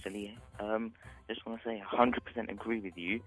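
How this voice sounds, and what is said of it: Whispering, very quiet voice. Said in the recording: “Any chance you could speak a bit louder? ... Is your mouth anywhere near the phone ... Why are you whispering?”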